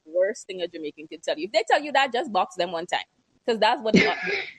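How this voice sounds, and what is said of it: Woman with a noticeable accent. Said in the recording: “I loved her accent.”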